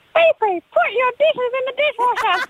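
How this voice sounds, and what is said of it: Peppa Pig character voice. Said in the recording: “use character voices ... do a bit of Peppa Pig ... ask me to put my dishes in the dishwasher as Peppa Pig”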